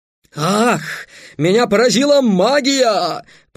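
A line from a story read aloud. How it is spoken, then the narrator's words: Groaning. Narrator (Russian): простонал Бамбура, то есть Хорд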